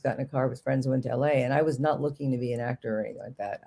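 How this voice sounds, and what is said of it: Slight Bronx accent. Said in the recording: “my accent comes out a little bit, but I had a very heavy Bronx accent”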